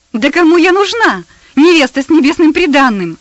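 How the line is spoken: Wild laughing exclamation. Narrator (Russian): Дико захохотав, воскликнула Персида

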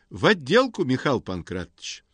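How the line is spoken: Cheerful. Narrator (Russian): весело говорит Антон

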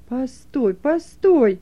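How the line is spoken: Stern remark. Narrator (Russian): строго заметил Бенони

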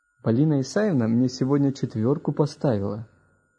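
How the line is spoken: Joyful. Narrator (Russian): радостно сообщил Гена

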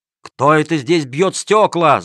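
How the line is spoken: Guards shouting. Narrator (Russian): закричали стражники

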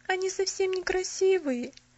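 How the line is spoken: Sobbing. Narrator (Russian): сказала она и всхлипнула

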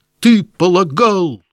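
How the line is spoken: Hurried, incoherent shouting. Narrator (Russian): закричал князь, все поспешнее и несвязнее выговаривая слова

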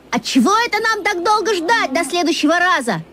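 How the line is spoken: Sudden shout. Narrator (Russian): Я вдруг крикнул

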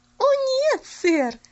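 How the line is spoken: Merry laughing. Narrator (Russian): весело засмеялась Пуляна

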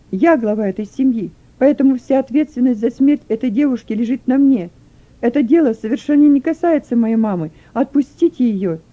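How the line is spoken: Loud shouting. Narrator (Russian): При этом он громко кричал

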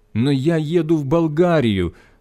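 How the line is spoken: Pleading. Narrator (Russian): взмолился я

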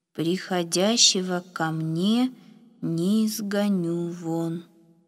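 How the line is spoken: Slow reading aloud. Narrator (Russian): медленно прочитал Ефим

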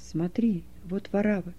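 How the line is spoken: Whispered. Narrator (Russian): шепнул Титу Кай

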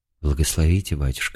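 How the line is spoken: Humble, calm reply. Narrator (Russian): ответила Елена Васильевна смиренно и, по-видимому, спокойно

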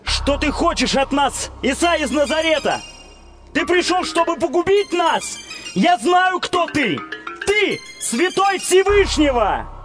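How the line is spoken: Sudden shout by possessed man. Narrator (Russian): человек, одержимый нечистым духом, который вдруг закричал

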